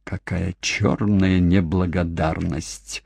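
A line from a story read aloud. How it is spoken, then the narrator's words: Through gritted teeth. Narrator (Russian): процедила Кейт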